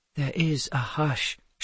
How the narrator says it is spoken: Charlemagne said in a quiet voice

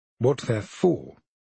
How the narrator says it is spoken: I say firmly

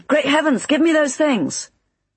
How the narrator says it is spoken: he began, then sprang up shouting

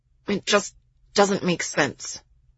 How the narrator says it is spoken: Miles muttered, still trying to somehow think his way out of this

